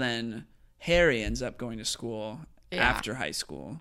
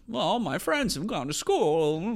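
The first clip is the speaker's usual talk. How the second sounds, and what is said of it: Imitates another person's voice. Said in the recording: “That's my Jimmy Stewart impression. ... for those that have seen a lot of Jimmy Stewart movies, they're like, hey, that's pretty good.”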